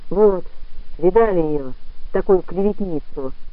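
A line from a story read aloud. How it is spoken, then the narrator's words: Mumbling. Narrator (Russian): промямлил Пилюгин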